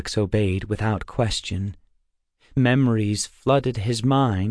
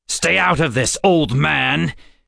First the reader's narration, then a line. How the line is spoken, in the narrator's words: Zane snarled, all traces of friendliness gone